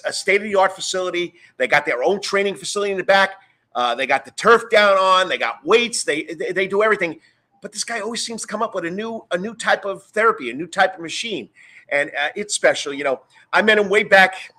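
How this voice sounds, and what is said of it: New York accent. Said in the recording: “I got the New York accent”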